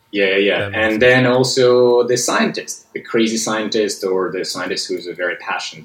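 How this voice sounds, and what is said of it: Russian accent. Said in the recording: “you have that accent”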